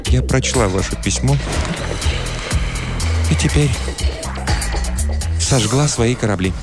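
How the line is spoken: Quiet voice. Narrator (Russian): она сказала тихим голосом

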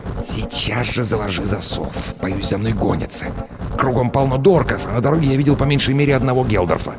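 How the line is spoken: Hissed. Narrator (Russian): прошипел

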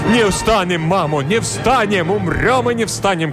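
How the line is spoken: Crowd shouting. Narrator (Russian): кричали запорожцы

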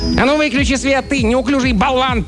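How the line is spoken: Little person shouting. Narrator (Russian): прикрикнул на него один из человечков

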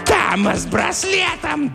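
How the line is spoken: Shrill distant voice. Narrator (Russian): донесся визгливый голос

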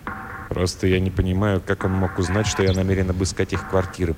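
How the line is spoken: Muttering. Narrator (Russian): пробормотал Флендри

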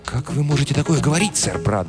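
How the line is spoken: Fervent whisper. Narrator (Russian): горячо прошептал король

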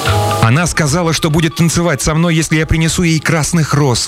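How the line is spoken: Young man exclaiming. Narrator (Russian): воскликнул молодой студент

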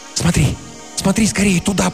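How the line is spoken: Urgent whisper. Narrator (Russian): прошептала она

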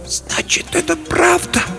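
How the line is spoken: Whisper. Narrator (Russian): прошептала она

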